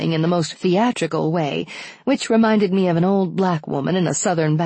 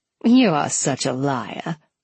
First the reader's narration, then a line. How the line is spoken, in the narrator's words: Tennessee said with a half laugh